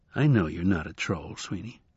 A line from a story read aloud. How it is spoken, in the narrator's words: said Shadow gently